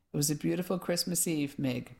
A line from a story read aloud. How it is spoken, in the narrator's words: Mum said